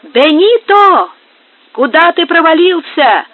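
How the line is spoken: Group of workers shouting. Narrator (Russian): кричали прочие работники

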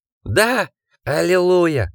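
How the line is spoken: Rapturous smiling exclamation. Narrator (Russian): воскликнул Гекбаст, восторженно улыбясь

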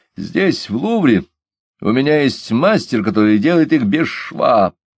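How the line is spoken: Laughing. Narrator (Russian): Он же, смеясь, сказал

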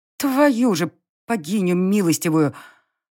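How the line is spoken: Disappointed exhale. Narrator (Russian): выдохнула я, разочарованно

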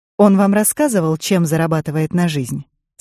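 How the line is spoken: Plain. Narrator (Russian): спросила Пайн

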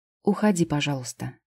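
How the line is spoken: Quiet repetition. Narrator (Russian): тихо повторила Лида

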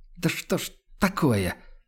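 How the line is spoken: Exasperated hiss through teeth. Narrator (Russian): в сердцах шипит он сквозь зубы

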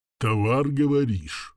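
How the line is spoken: Muffled mutter to himself. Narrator (Russian): Глухо пробормотал он себе под нос

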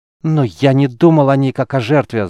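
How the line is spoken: Shouted. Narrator (Russian): закричал Геллерд

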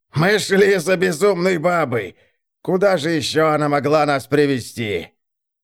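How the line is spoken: Angry shout. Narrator (Russian): Блистиг находит энергию для гнева, но он закричал

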